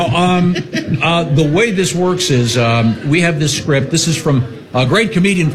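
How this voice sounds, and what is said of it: Usual voice. Nothing is said of it.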